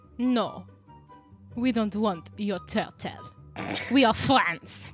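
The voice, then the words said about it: Exaggerated put-on French accent. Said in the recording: “that was not a French accent. That was so bad. ... I can do a better French accent.”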